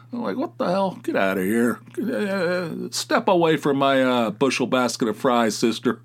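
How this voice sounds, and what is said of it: Thick Southern-sounding American accent. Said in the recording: “I just heard the way you're talking, and I just assume you're from Alabama ... what do we sound like? A couple hicks? ... Do I have, like, such a thick accent? ... you can hear it sometimes”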